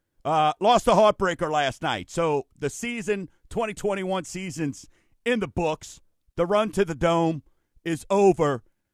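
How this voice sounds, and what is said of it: Slightly raspy hoarse voice. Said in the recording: “you can hear I'm a little raspy, not from announcing, from cheering”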